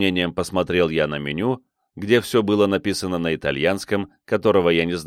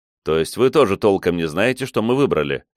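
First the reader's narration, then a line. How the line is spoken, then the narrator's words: Snorting. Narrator (Russian): хмыкнул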